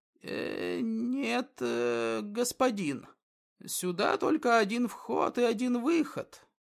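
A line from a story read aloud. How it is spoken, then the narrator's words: Hesitant stammer. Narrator (Russian): неуверенно пролепетал он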